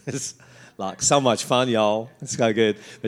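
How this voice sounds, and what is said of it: Put-on American Southern accent. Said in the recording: “she is from down south in the USA. I love doing that accent.”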